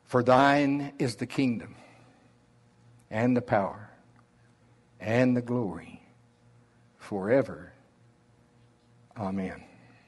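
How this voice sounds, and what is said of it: Slow Oklahoma drawl. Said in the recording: “my slow Oklahoma drawl”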